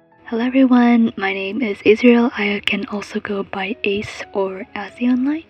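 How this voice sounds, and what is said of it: Soft, quiet speaking voice. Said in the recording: “I will be talking in a soft voice because it's late at night for me here, and I'm recording in my closet, and I do not want my parents to overhear”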